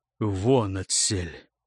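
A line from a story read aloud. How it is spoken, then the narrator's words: Quiet and hoarse. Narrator (Russian): тихо, хрипло сказал Карелу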